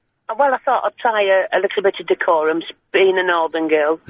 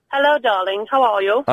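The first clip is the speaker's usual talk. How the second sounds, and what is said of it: Put-on posh accent. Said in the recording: “putting on a posh voice”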